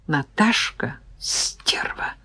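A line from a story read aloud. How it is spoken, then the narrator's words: Mutter while bending. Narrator (Russian): пробормотала, нагибаясь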